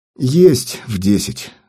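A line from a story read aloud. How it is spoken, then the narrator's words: Sigh. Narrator (Russian): вздохнул я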